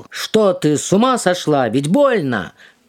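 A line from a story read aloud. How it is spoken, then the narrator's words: Startled old man shouting. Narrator (Russian): Дед проснулся и закричал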